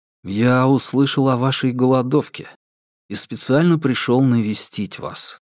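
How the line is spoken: Soft, gentle. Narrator (Russian): мягко произнес Линь Сянмин

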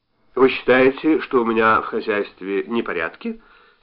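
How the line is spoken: Plain question. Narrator (Russian): спросил Ашхен

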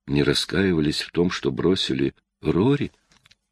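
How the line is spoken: Quiet question. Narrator (Russian): тихо спросила Клэр

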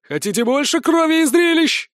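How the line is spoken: Yelling right in ear. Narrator (Russian): Казалось, Грубин орал прямо в мое ухо

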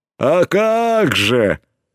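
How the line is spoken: Pleased deep bass. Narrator (Russian): пробасил довольный верзила

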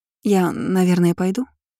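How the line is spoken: Uncertain question. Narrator (Russian): неуверенно спросила девушка

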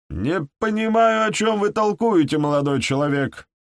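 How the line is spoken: Squeal. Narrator (Russian): провизжал Фергюсон

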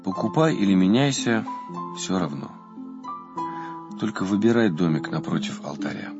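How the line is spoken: Weary. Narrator (Russian): Отец Иоанн устало ответил ему

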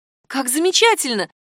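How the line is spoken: Exclamation. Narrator (Russian): воскликнула Катя

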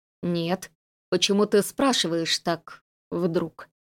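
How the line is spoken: Quiet. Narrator (Russian): тихо проговорила

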